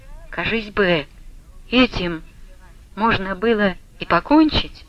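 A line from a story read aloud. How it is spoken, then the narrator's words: Soft quiet speech. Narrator (Russian): тихонько промолвил Василий Борисович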